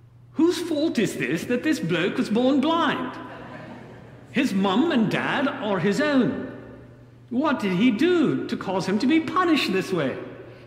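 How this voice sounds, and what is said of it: Put-on accent. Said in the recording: “forgive my accent”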